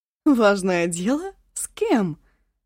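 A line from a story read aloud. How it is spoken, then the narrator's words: Laughing loudly. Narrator (Russian): расхохоталась Ашун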